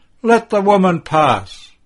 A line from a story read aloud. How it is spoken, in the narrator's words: takes pity on her, and he shouts